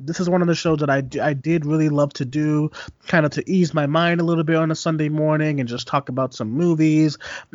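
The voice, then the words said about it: Slightly congested, recovering voice. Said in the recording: “Just coming off a sore throat over the weekend, but it's getting better today. And my podcast voice is getting there. Not quite there. A little congested”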